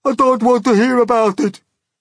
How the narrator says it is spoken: shrieked the poor blind earthworm

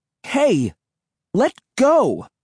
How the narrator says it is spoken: I cried angrily

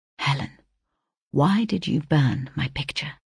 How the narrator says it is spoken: turned to me, and addressing me in a confidential whisper, said

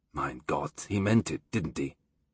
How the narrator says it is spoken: Thomas said softly

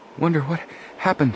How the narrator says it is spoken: Joe panted

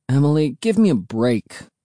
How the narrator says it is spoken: I groaned

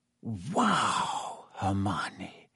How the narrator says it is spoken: Harry whispered

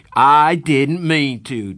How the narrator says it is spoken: Darry shouted

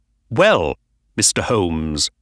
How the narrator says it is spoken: he said coldly

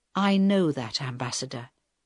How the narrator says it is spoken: Helen answered quietly

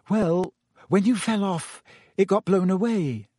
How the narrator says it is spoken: said Hermione hesitantly

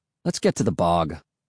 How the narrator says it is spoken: Will said impatiently

